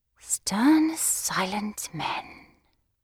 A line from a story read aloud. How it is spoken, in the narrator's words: I murmured to myself in an ecstasy